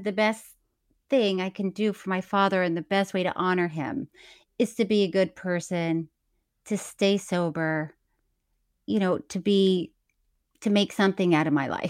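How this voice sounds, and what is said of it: Choked up, tearful voice. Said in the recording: “I'm getting choked up... crying.”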